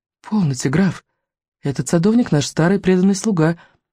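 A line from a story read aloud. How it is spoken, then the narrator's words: Surprised and sad. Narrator (Russian): проговорила принцесса, удивленная и печально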